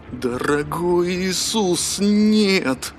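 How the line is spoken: Groan. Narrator (Russian): простонал Пимли

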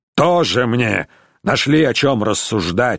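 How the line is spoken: Snorting. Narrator (Russian): фыркнул он

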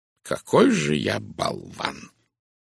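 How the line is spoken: Snorting curse. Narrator (Russian): хмыкнув, выругался он

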